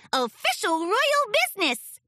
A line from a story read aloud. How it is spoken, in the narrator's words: squeaked Sweetie Belle